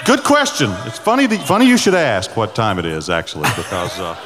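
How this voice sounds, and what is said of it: Southern American accent. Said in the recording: “I got this Southern accent”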